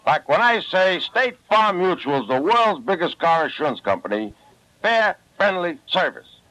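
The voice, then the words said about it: Brooklyn accent. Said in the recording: “I talk with a bad Brooklyn accent ... a beautiful Brooklyn accent”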